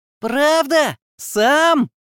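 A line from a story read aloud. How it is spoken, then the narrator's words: Delighted squeal. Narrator (Russian): восторженно взвизгнула фея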